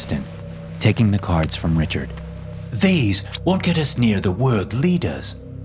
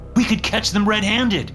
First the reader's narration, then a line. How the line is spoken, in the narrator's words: I cried